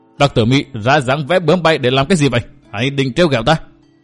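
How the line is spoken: Angry shout. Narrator (Vietnamese): hắn dần giữ quát

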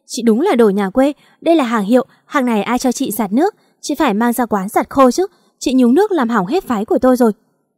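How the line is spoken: Shouting. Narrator (Vietnamese): Thư hét lên

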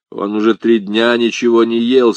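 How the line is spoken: Plain. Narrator (Russian): сказал Гарри

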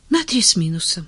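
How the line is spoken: Sad admission. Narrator (Russian): печально созналась Таня

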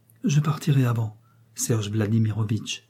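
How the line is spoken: Calm tone. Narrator (French): dit d'un ton calme

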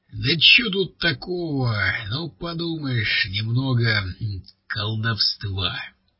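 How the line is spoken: Plain. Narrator (Russian): сказал рыжий

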